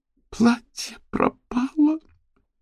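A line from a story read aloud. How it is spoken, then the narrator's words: Loud desperate sobbing. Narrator (Russian): Она рыдала громко и отчаянно, от страха, от горя, от жалости к себе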